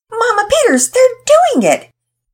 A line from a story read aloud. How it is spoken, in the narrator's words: Penelope yelled happily